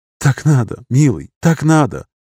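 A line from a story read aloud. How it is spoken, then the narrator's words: Tender tearful breaking voice. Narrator (Russian): Нежно проговорила женщина со слезами на глазах, срывающимся голосом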